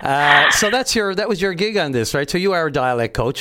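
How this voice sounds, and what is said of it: Newfoundland accent. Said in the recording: “How's my dialect? ... Yours is pretty spot on.”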